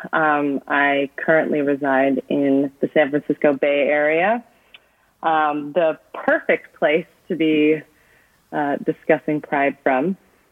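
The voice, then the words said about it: American accent. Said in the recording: “as you can probably tell from my accent, am from the US”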